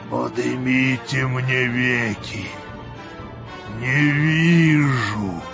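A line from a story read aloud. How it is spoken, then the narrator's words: Deep subterranean voice. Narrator (Russian): сказал подземным голосом Вий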